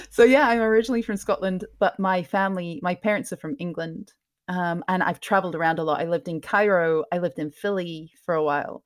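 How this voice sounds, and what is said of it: Slightly mixed, mostly English accent. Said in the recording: “I ended up with just a slightly mixed accent... my default is to have a slightly more English tone... I just softened my accent a little bit”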